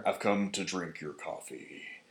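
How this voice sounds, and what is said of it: Poor imitation of Thanos voice. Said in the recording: “That's not a good Thanos impression.”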